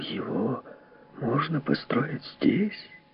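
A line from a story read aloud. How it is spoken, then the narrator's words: Strained whisper. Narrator (Russian): он с трудом прошептал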